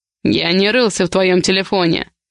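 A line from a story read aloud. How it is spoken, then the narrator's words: Growl. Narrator (Russian): прорычал он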